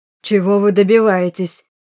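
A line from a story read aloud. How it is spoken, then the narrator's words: Furious roar, losing control. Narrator (Russian): взревел граф, потеряв самообладание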